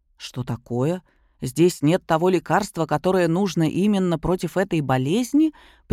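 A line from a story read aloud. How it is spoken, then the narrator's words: Displeased interruption. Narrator (Russian): прервал его дракон недовольным тоном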